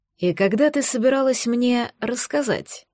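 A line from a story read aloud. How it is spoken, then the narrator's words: Husband's whispered question. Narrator (Russian): шепотом поинтересовался муж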